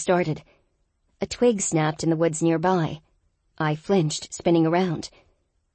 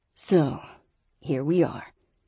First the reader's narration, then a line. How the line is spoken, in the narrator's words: he said in a cool tone